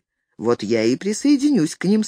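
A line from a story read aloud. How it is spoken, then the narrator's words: Calm. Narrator (Russian): спокойно сказал Филипп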